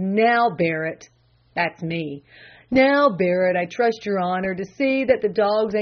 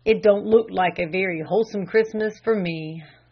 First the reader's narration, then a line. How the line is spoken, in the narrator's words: sighed the old butler